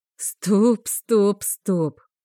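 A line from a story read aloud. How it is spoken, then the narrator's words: Moaning. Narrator (Russian): простонала я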